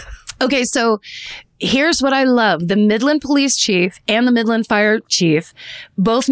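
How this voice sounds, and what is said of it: Usual voice. Nothing is said of it.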